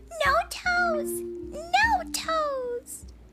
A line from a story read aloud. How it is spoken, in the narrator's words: Gabe laughed